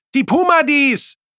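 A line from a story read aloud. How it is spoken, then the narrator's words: Called out. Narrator (German): rief Oswin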